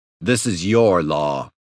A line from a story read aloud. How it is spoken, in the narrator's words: he growled